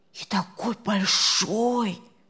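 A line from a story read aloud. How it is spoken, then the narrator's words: Whispering. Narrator (Russian): зашептали с другой стороны кровати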